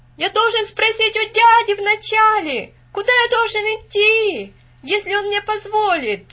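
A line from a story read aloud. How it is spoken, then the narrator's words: Shouting after someone. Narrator (Russian): закричал Винзи вслед мальчику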